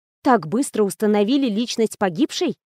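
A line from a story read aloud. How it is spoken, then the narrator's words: Mumble. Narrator (Russian): пробормотала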